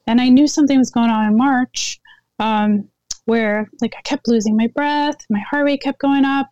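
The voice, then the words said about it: Slightly hoarse, weakened voice. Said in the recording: “losing my voice, which you can probably hear a little bit.”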